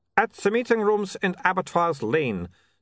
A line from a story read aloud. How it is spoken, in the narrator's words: said Otto triumphantly